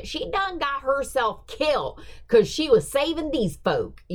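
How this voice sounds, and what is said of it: Put-on Appalachian accent, yelled. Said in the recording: “Appalachian accent ... I was trying to work on the accent ... because I was yelling it”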